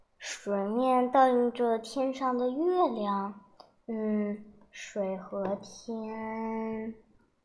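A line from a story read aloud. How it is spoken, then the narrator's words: Troubled murmuring. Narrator (Chinese): 秦观皱着眉头喃喃地说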